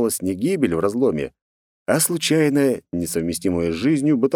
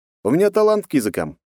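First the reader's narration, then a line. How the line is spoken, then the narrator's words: Smirking snort. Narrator (Russian): хмыкнул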